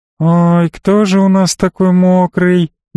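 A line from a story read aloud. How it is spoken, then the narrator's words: Singsong cooing. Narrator (Russian): нараспев запричитала Элли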